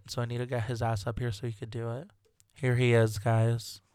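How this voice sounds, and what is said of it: Sore-throated voice. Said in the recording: “I can't even do that, that's how sore my throat is.”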